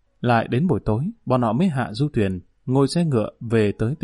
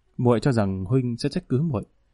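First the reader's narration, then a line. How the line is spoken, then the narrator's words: Gentle, smiling. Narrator (Vietnamese): Triệu Thúy Nghiến nhẹ nhàng cười nói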